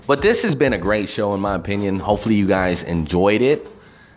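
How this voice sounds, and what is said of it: Southern twang. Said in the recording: “hobo with a southern twang ... I'm that motherfucker with the million-dollar voice”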